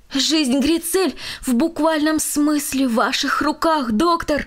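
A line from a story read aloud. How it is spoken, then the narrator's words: Impulsive exclamation. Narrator (Russian): импульсивно воскликнул он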